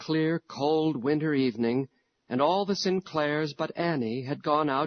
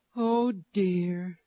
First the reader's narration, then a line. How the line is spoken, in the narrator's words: she sighed